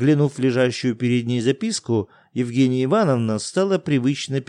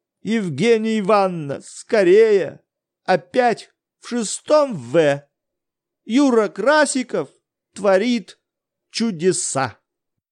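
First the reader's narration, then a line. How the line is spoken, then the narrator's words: Loud frightened voice. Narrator (Russian): чей-то испуганный голос громко возгласил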